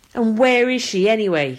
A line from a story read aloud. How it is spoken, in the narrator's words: he snaps